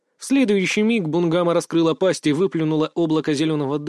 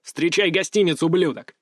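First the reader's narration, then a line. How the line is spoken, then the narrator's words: Barking. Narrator (Russian): рявкнул я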